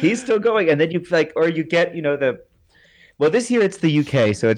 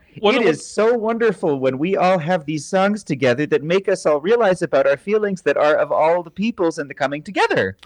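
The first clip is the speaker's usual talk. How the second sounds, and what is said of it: Put-on flat European accent. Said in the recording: “in that wonderful flat Euro accent”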